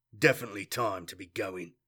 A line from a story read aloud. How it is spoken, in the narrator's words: he murmured